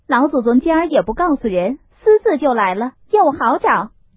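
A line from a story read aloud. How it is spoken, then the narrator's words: Cheerful, laughing. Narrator (Chinese): 笑嘻嘻的来了，口内说道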